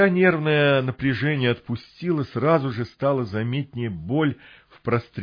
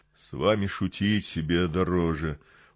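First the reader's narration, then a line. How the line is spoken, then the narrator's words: Mild mutter under breath. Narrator (Russian): Уже беззлобно пробормотал себе под нос я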